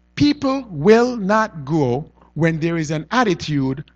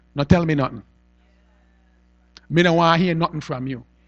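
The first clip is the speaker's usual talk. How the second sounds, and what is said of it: Put-on dialect voice. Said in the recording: “Pardon the dialect.”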